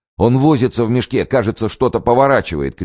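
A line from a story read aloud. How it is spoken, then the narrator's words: Shouting. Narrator (Russian): кричал Козловский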